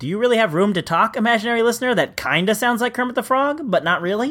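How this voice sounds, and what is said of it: Usual voice. Nothing is said of it.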